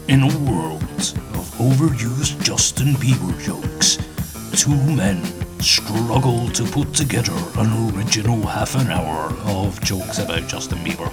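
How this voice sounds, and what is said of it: Movie trailer announcer voice. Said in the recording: “doing that announcer voice”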